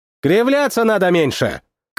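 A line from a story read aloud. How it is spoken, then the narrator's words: Shouted back. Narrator (Russian): крикнул в ответ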